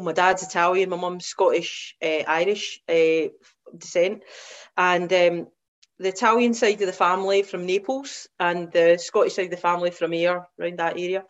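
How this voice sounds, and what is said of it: West Coast Scottish accent. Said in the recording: “you might start to pick up from my accent. I'm a West Coaster, so born and brought up in Ayr”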